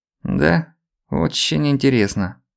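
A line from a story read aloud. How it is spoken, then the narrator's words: Drawling. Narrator (Russian): протянул он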